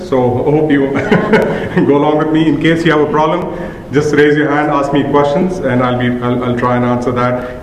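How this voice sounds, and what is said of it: Strong Indian accent. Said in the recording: “I've got a terrible Indian accent”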